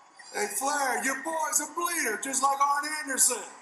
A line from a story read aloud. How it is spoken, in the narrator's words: he screams out